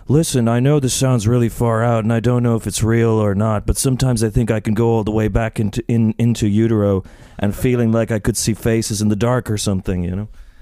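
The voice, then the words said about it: Imitates another person's voice. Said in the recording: “That's a great impression. ... that sounds very Nicolas Cage.”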